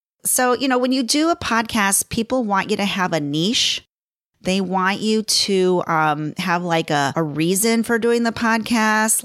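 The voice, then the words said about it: Strained, fading hoarse voice. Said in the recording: “losing my voice. I can tell all this talking.”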